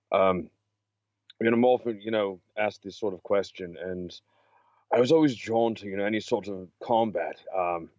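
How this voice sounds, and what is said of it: Congested voice from a cold. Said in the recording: “I have a little bit of a cold ... I'm a little congested tonight”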